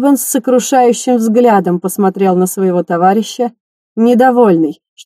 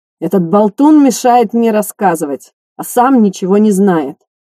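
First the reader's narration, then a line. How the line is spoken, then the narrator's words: Contemptuous tone. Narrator (Russian): презрительным тоном сказал Эстебан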